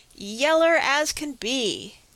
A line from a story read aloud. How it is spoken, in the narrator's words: Praiseworthy exclaimed